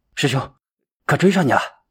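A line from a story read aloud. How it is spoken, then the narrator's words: Panting. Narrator (Chinese): 英行喘着粗气说道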